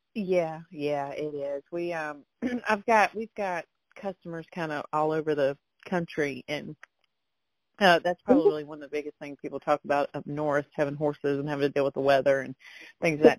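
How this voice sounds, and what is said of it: Strong Southern American accent. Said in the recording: “you have, like, a very Southern accent.”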